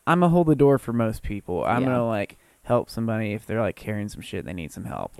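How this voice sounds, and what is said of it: Put-on Southern accent. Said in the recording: “in a Southern ... why did you just go into that accent?”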